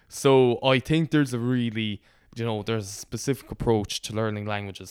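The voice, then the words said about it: Irish accent from Connemara. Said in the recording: “by my accent you might think I grew up with Irish ... the part of Connemara I'm from”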